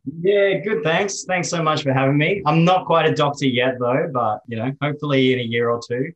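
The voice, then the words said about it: Australian accent. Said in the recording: “You may be the most Australian-sounding Palestinian I've ever heard. You are rocking the Aussie accent... we would think that you are a fully blown Aussie there”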